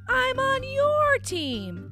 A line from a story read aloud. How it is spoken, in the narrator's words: he yelled